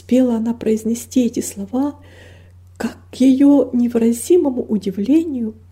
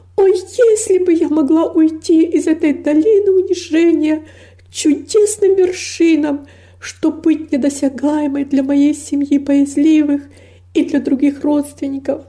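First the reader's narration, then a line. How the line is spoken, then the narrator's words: Anguished yearning exclamation. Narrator (Russian): воскликнула с невыразимой тоской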